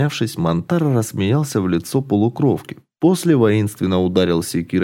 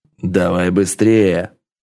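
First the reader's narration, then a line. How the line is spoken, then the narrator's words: Furious roar. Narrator (Russian): бешено проревел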